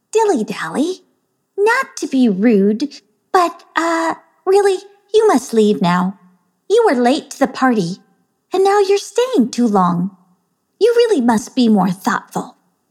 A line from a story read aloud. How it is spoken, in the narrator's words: Excitabelle said, in the nicest voice possible